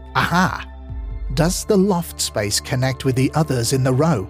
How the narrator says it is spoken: Dave Welch triumphantly exclaiming

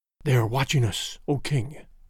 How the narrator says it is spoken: whispered

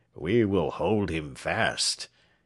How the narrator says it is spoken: he muttered to himself

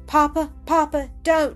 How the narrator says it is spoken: she cried, bursting into sobs and tears

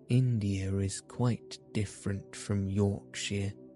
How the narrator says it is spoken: Mary said slowly, as she thought the matter over

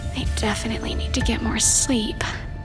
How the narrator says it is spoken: muttered to herself

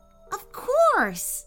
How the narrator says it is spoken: Eyeshank exclaimed

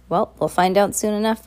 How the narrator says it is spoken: Violet said

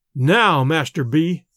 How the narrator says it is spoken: said he

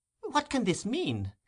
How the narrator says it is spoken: exclaimed the elder lady

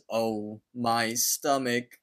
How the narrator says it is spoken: Benson slowly says

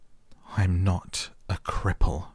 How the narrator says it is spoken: he cried out furiously

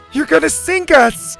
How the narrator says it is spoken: Zeta laughed

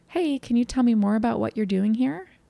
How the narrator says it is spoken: took a deep breath and I walked out and calmly asked

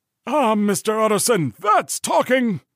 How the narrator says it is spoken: cried the butler

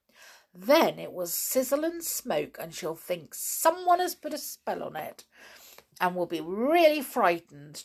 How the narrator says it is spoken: chuckled Naughty Pipperty to himself

